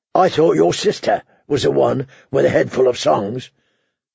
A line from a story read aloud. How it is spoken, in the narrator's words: the hound growled